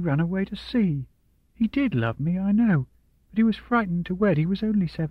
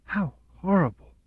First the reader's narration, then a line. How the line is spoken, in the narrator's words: Charlotte whispered